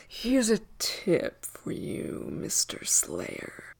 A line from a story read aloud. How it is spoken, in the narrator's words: hissed